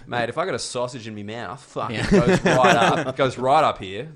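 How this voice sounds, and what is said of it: Exaggerated strong Australian accent. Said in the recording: “my accent, I think gets more Australian the more Australians I'm near ... And the stronger their accent ... I feel racist when I do that accent”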